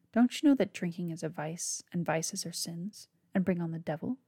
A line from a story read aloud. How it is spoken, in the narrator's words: Bo chuckled quietly